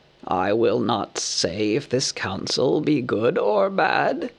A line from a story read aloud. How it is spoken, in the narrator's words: croaked Roark